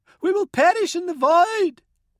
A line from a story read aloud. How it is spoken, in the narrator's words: shrieked